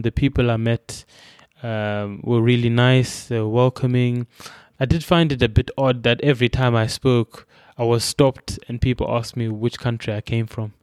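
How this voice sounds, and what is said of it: Zimbabwean accent with a twang. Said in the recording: “You've got a twang in your accent. ... I'm from Zimbabwe. My accent is my accent.”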